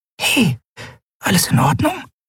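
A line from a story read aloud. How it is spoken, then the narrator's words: Whispering. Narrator (German): flüsterte sie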